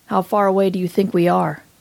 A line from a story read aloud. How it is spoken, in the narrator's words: asks